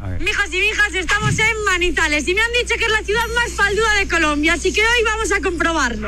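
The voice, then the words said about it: Pleasant regional Spanish accent. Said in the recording (Spanish): “¡No, qué acento tan delicioso! ... ¡Que es precioso! ... No, es rico el acento.”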